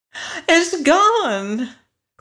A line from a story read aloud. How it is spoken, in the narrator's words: cried Dorothy in dismay